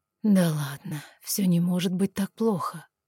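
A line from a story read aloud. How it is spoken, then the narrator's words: Hoarse whisper. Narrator (Russian): хрипло прошептал он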